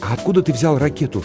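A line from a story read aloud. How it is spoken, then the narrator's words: Whispered question. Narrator (Russian): шепотом спросил Тимоти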